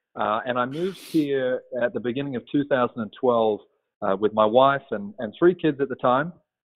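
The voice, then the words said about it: Australian accent. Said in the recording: “as you can probably tell from my accent ... Originally from Australia.”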